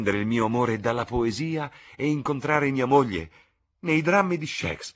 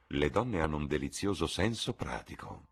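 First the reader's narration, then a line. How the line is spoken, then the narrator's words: Murmuring. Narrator (Italian): mormorò Lord Henry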